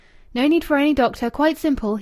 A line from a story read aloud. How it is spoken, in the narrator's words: he called out